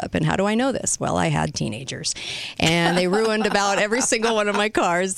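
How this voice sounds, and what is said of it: Hoarse, strained voice. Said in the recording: “I'm losing my voice already”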